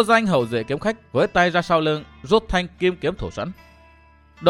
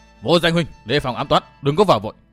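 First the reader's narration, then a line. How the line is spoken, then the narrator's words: Shouted warning. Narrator (Vietnamese): Thân phủ Khai Sơn gọi hét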